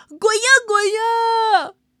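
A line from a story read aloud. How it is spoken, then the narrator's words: Small creature shouting. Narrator (Chinese): 小蛇大叫着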